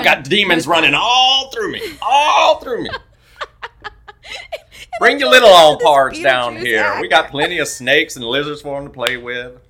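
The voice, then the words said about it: Beetlejuice character impression. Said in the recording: “a Beetlejuice impersonator”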